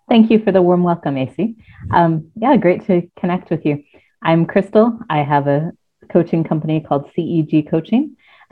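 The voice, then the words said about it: American accent. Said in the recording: “as you can tell from my accent, I'm not Welsh, but I come from the States ... you don't sound quite like you're from the British Isles”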